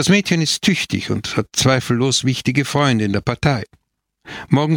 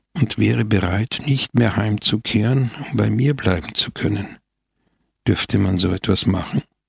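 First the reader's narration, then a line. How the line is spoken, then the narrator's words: Quiet continuation. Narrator (German): fuhr Scamoggia leise fort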